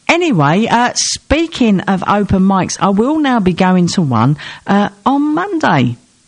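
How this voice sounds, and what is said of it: Voice not at its best. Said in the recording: “I was hoping my voice is better, and it's not.”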